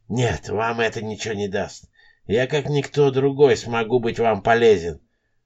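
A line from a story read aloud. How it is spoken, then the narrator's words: Lame man whispering. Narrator (Russian): шептал хромой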